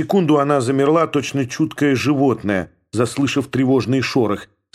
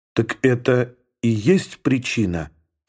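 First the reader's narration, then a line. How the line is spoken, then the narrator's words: Quiet question. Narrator (Russian): тихо спросила она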